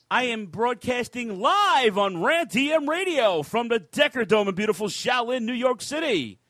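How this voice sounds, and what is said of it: Exaggerated radio announcer voice. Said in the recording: “You like my radio voice?”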